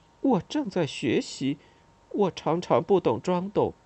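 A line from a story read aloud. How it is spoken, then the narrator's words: Embarrassed mutter. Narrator (Chinese): 我脸红了，嘀咕了一句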